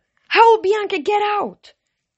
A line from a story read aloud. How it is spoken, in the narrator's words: She yelled